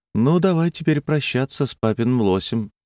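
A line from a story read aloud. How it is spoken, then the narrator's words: Light tone. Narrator (Russian): сказала она легким тоном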